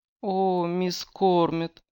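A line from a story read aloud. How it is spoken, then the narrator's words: Moaning. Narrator (Russian): простонала она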